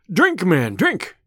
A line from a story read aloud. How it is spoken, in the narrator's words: cried Robin